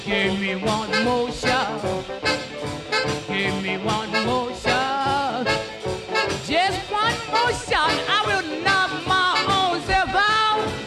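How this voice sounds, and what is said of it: Distinctive high singing voice. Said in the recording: “distinctive high voice”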